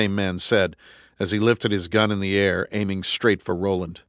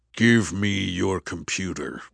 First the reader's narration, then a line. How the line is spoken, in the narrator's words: the man said, his voice deep and menacing